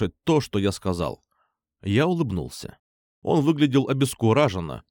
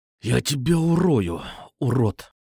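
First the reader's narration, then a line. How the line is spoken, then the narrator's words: Hiss. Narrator (Russian): прошипел он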